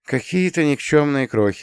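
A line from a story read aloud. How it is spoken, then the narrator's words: Sighing. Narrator (Russian): вздохнул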